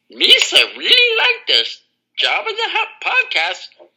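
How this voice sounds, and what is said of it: Imitates Jar Jar Binks character voice. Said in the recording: “Star Wars characters impersonations... you have a pretty decent Jar Jar... That was phenomenal.”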